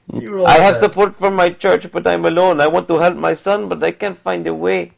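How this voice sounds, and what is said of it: Put-on accent voicing a quoted woman. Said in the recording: “See, I have the accent. ... So this is how she sounds in my head.”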